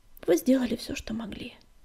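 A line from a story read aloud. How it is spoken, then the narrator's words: Quiet. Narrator (Russian): тихо ответил Огнегриф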